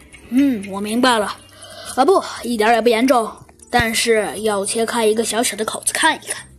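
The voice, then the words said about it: Serious doctor character voice. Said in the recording (Chinese): “医生用他那严肃的声音说道”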